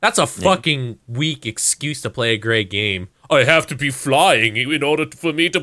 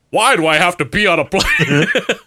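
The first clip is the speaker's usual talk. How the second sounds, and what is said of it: Imitates another person's voice. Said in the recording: “does his voice become that ... that's my good impression ... It's uncanny”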